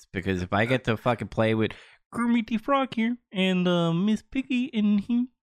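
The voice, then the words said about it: Kermit the Frog character voice. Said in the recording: “that's a really damn good impression. ... That was really good.”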